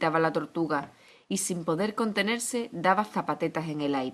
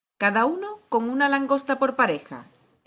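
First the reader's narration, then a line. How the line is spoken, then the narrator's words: Exclaiming. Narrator (Spanish): exclamó el grifo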